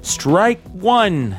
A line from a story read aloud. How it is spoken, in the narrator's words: the court officer yells out